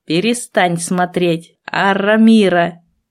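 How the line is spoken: Growled. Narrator (Russian): рыкнул Аморт

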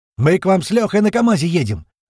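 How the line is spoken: Sudden shout over radio. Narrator (Russian): внезапно прокричала наша рация голосом Пьера

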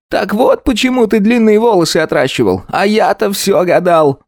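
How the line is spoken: Exclamation. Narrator (Russian): воскликнул он

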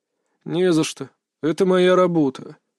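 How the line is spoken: Displeased grumble. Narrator (Russian): недовольно буркнул доктор

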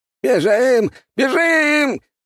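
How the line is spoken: Old man shouting. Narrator (Russian): прокричал старик в зеленом

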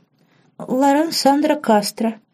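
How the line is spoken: Timid girl's squeak. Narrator (Russian): пискнула девушка, вдруг робея под внимательным и чуть ироничным взглядом

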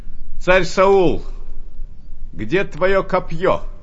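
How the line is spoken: Distant shout. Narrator (Russian): закричал издали

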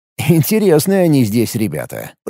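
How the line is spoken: Muttered snort to himself. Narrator (Russian): про себя хмыкнул

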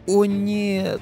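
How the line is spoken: Moan. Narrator (Russian): Простонала Хек

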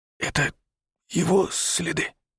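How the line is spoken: Whisper. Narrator (Russian): шепнул Павел

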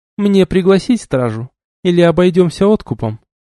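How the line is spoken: Sweet, menacing question. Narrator (Russian): ласково спросила она

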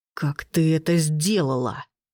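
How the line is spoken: Growled, male. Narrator (Russian): прорычал он

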